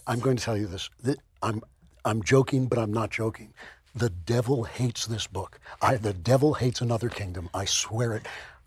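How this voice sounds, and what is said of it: Hoarse, laryngitic voice. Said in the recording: “you have laryngitis”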